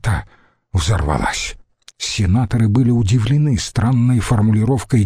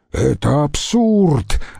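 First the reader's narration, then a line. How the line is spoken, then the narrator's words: Roared. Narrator (Russian): взревел Марк Антоний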